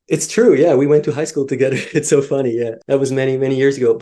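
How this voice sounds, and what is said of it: Swiss accent. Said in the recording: “our Swiss accent”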